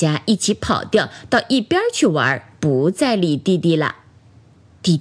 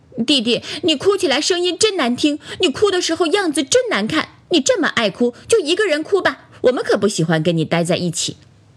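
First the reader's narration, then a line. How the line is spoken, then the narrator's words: Angry. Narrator (Chinese): 朋友们都生气了，说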